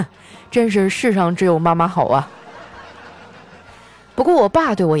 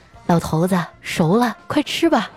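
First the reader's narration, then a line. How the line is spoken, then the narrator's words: Gentle. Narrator (Chinese): 我妈温柔地对我爸说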